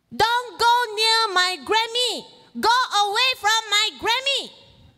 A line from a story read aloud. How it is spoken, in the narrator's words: she shouted